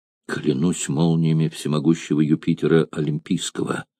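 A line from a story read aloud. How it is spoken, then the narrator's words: Whisper. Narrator (Russian): прошептал он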